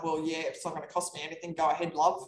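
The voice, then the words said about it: Put-on Australian accent. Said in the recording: “in their Aussie accent.”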